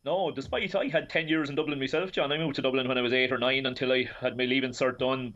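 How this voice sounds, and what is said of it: Irish midlands brogue. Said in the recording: “You haven't lost your accent though, Shane Keegan, that leash brogue.”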